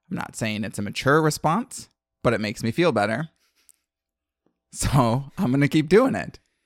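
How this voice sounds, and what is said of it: Raspy, strained voice. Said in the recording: “I strained my vocal cords ... I may sound a little raspy”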